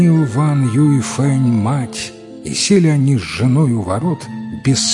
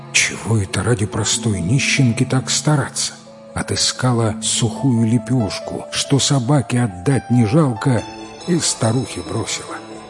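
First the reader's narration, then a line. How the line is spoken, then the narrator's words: Woman muttering. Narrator (Russian): жена Вана, а сама бормочет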